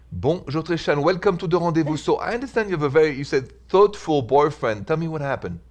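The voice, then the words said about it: Beautiful accent. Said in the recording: “such a beautiful accent like yours”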